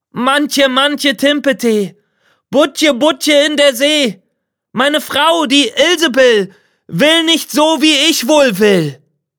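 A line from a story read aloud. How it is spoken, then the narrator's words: Calling out. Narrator (German): rief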